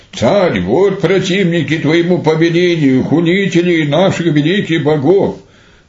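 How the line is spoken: Shouting soldiers. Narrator (Russian): воины … закричали ему

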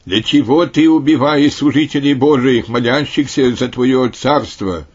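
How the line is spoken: Loud. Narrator (Russian): святый папа Маркел, который громко сказал ему

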